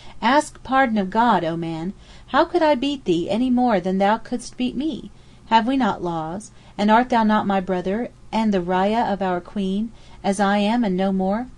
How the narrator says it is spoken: cried out at him

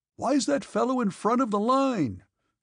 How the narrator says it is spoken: shouted somebody at him again

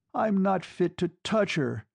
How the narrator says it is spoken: he cried aloud to the four walls

